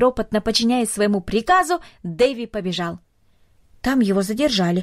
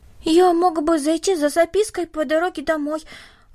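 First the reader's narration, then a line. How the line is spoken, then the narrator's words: Timid suggestion. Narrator (Russian): робко предложил Дэви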